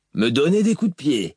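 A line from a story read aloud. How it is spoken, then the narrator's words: Sneering. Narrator (French): ricana Moash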